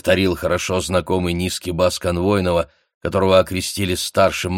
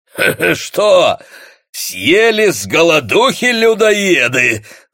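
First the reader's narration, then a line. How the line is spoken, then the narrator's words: Guffawing. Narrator (Russian): захохотал могильщик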